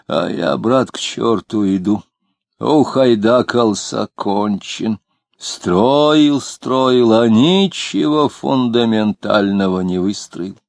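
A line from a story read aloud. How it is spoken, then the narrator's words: Wheezing. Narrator (Russian): он засипел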